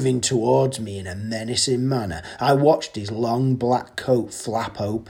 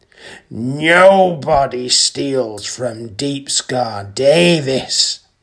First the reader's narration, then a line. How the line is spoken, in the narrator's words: growled